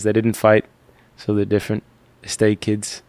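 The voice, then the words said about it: Lazy low character voice. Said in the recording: “that was a pretty good Tommy accent right there ... you gotta have the lazy like kind of low voice”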